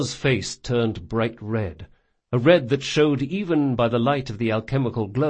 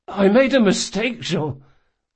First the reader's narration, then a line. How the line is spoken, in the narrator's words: Locke croaked in desperation